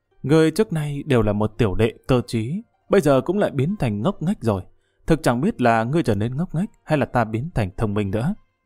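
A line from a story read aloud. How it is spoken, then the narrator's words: Muttering. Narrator (Vietnamese): Nàng lẩm bẩm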